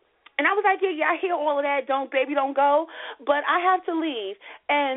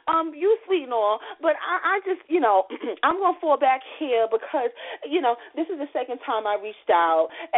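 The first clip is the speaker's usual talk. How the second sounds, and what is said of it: Imitates another person's voice. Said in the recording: “was that your accent? ... I was trying to do my Kevin Hart”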